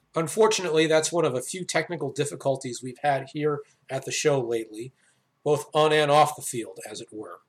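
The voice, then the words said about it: Congested voice from a cold. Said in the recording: “as you can probably tell, I have a cold.”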